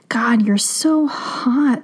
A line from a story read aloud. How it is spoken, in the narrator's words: she groaned